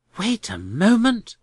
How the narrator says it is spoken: cried Mr

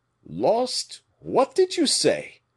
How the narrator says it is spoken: exclaimed the terrified Porthos

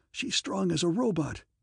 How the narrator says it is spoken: A choking sob of startled horror

